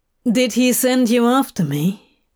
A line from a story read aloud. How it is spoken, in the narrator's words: Crowley asked